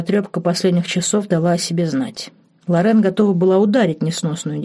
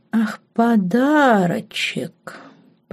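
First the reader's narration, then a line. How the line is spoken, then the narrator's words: Drawling girl. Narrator (Russian): протянула девушка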